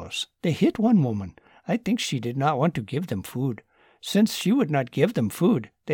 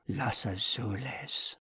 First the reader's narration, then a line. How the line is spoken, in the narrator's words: whispered Anna with dread